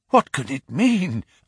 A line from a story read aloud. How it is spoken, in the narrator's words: I gasped